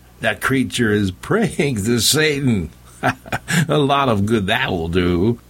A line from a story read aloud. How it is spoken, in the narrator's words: Bobson laughed, then called out